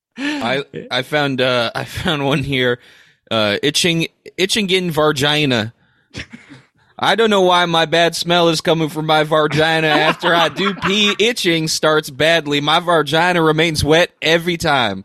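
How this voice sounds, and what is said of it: Put-on Southern American accent. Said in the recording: “Like that you read in a southern accent.”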